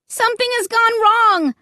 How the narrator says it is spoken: I cried out loud

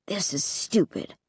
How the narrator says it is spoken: Luke muttered

